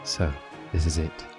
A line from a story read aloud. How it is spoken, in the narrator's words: she said quietly to herself